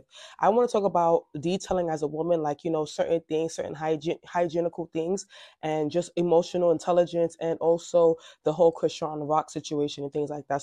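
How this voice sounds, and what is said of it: Slightly raspy voice. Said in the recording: “my voice is a little. ... A little raspy.”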